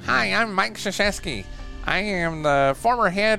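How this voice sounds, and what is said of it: Imitates another person's voice. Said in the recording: “You do a pretty good impression ... you've done I've Mike Krzyzewski before”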